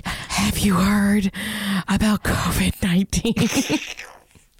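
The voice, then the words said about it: Whispering. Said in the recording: “whispered something right in their ear ... I just would whisper.”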